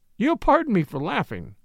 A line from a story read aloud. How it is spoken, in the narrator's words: giggled